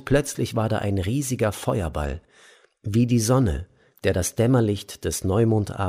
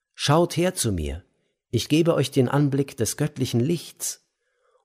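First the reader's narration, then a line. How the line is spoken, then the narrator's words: Calling out to all. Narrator (German): Er rief allen zu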